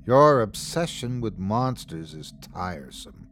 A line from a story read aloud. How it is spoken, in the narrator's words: sighed his father